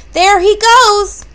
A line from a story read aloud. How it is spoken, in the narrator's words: yelled Tess